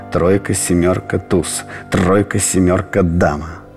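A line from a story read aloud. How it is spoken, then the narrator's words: Rapid muttering. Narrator (Russian): бормочет необыкновенно скоро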